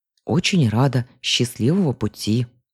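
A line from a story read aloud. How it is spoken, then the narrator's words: Grumbled. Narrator (Russian): буркнула я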